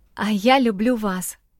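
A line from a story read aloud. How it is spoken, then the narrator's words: Barely audible quiet. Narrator (Russian): проговорила тихо, еле слышно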